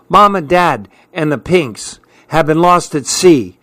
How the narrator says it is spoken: she cried out

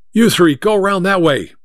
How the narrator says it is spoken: Mike shouted

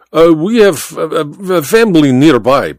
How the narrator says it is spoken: Baba stammered

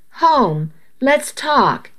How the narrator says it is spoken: he pleaded

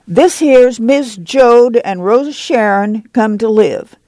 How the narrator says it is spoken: Jesse said loudly

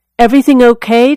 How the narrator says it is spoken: Tisdale asked him

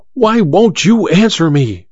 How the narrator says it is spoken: she cried to Olga

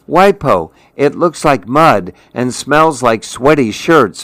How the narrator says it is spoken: Mimi cried

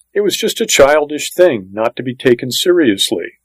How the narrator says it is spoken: June Ellen's mother said quickly

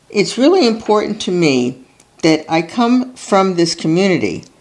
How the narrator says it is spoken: Plattner tells them, his voice faltering

